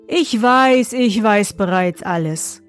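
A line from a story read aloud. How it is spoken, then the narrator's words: Plain. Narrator (German): sagte er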